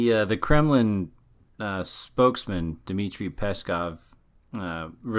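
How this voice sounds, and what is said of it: Usual voice. Nothing is said of it.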